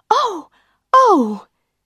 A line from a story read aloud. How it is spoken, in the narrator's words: She jumped up and cried